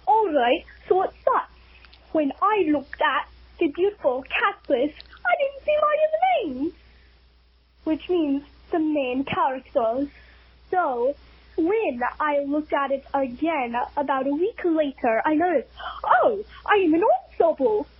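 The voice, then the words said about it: Put-on British accent. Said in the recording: “if you want me to do a British accent, I will gladly do so for the rest of this message”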